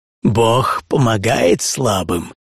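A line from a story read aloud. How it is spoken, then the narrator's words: Old man, mocking laugh. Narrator (Russian): старик засмеялся мне в лицо и сказал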